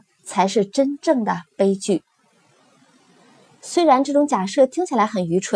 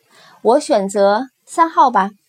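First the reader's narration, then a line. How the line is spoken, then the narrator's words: Hesitant, stammering. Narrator (Chinese): 吞吞吐吐地说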